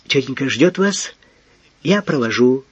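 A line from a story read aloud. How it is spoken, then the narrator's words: Mumbled. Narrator (Russian): пробормотал он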